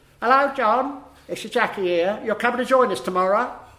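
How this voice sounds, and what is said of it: Imitates another person's voice. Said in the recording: “That was a good impersonation that ... did give of Jackie.”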